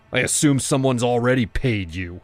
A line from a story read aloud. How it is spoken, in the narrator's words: I shouted